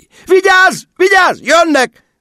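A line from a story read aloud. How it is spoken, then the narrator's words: Shrill shriek. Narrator (Hungarian): visított Margó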